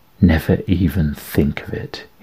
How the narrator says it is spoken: said, hissing into her ear

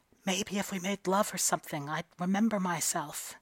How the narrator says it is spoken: closed her eyes and hid her face and whispered

